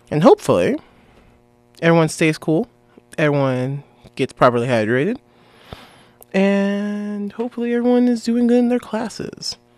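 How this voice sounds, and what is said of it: Raspier voice than usual. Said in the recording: “My voice is a little bit more raspy than normal. I might be coming down with something”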